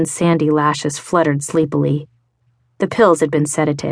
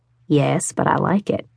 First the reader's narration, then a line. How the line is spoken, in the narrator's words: Ryan murmured